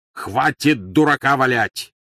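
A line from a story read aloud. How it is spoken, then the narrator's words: Barked. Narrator (Russian): рявкнул Грюм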